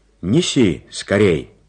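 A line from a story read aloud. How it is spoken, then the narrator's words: Shouted after someone. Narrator (Russian): крикнул он вслед малышу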